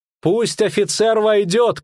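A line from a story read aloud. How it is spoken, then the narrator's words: Shout, suppressing laughter. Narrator (Russian): крикнула Маргарита, сдерживая смех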